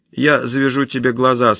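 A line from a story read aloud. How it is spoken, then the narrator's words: Calm. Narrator (Russian): спокойно произносит он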